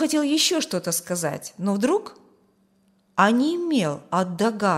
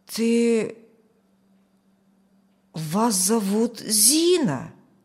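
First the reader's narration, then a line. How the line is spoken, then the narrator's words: Strained, nearly asserting. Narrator (Russian): почти утвердительно выдавил он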